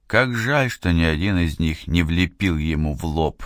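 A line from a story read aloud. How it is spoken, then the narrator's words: Sighing. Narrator (Russian): вздохнул Нелюбин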